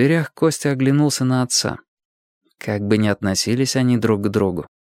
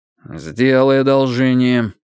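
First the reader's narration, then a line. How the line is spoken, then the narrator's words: Said gloomily. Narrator (Russian): мрачно сказал Андрей Андреевич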